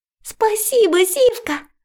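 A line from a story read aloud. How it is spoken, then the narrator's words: Exclaimed. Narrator (Russian): воскликнула Алёнка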